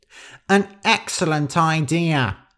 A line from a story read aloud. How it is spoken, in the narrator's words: shouted Nosy